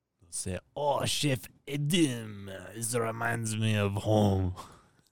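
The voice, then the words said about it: Put-on Russian accent. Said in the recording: “my Russian prisoner impersonation”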